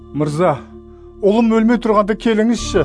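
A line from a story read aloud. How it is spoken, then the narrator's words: Desperate pleading. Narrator (Kazakh): деп жалбарынды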